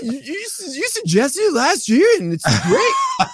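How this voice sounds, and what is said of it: Imitates another person's voice. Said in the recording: “that is the greatest impression of that person that you'll ever get”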